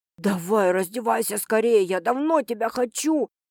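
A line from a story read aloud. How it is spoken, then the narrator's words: Hoarse whisper. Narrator (Russian): шепчет он хрипло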